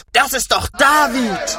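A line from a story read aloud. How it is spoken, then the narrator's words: Group shouting. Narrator (German): schrien sie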